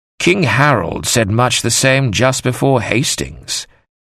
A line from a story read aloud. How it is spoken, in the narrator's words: Father Christopher said gently